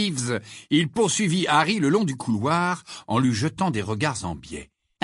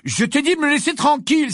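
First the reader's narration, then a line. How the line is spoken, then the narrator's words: Exclaiming. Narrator (French): s'écria Harry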